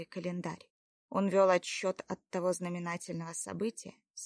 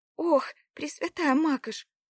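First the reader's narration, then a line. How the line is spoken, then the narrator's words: Frightened exclamation. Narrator (Russian): воскликнула испуганно Лада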